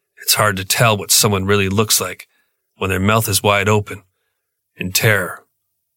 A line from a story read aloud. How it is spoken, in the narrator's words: noting bitterly